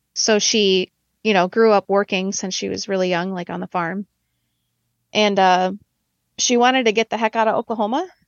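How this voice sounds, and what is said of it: Wisconsin accent. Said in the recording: “she moved to Wisconsin ... That's where I live, if you couldn't tell from my accent.”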